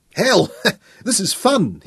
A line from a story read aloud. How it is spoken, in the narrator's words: he laughed aloud